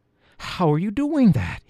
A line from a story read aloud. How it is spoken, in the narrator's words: gasped